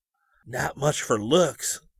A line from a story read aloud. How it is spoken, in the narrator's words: Scotty whispered